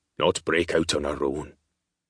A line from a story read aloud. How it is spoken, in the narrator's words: Rory said, his voice a low grumble